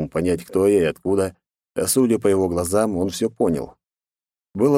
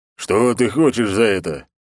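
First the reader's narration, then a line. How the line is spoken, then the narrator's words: Loud deep male voice. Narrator (Russian): громко пробасил мужчина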